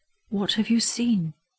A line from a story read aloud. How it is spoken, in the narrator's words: his son asked him gently